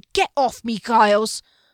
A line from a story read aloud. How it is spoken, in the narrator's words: Con shook him off with a growling